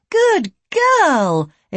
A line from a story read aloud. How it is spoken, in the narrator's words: Elaine exclaimed